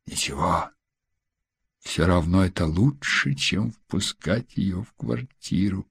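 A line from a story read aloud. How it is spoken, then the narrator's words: Whispering. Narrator (Russian): шепотом продолжал он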